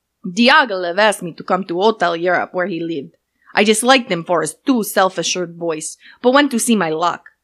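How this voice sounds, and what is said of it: Made-up, Italian-sounding put-on accent. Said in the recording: “I feel like it's gonna come out very Italian ... I'm gonna try to do whatever accent comes out of my mouth hole”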